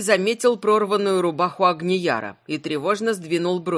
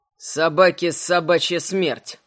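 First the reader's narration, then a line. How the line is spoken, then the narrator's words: Grumble. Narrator (Russian): проворчал Кречет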